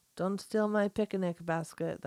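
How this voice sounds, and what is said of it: Cartoon bear voice, Russian-like accent. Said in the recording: “The accent, though. That was like a Russian accent. ... Yogi the Bear”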